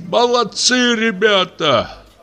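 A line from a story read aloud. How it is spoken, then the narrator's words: Shouted. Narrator (Russian): крикнешь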